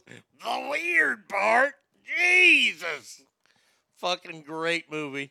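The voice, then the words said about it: Imitates another person's voice. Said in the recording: “a spot on Nick Nolte impersonation”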